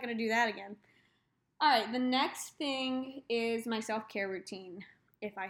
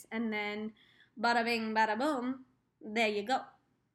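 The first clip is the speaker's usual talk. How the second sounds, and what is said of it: Weird put-on accent. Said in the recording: “That was a weird accent.”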